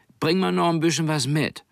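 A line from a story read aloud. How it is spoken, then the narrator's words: Calling from doorway. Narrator (German): rief sie noch aus der Tür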